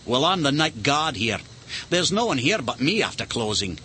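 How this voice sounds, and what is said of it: Scottish accent. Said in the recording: “He had a different accent from Mr. Stark's. I think it was Scottish.”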